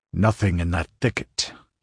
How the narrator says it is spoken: he growled

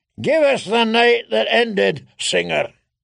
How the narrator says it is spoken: he bellowed

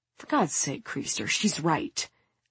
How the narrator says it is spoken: someone mutters

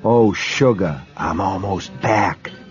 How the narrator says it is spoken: she whispered in the dark

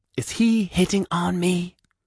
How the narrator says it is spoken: Gary whispered loudly

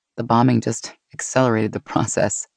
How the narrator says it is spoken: she chuckled

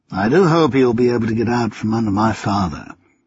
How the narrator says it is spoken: Hazelby continued, his tone as mild as if he were watching a not terribly exciting horse race

